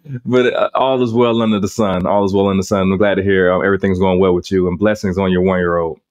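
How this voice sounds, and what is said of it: Deep, husky voice from illness. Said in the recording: “Definitely a little bit under the weather myself. You can probably hear it in my voice ... don't mind the Barry White today ... you're a Barry White, huh?”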